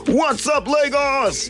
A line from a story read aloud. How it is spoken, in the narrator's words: screaming